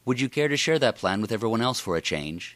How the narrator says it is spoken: Inna asked

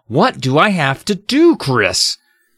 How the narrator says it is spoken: angrily

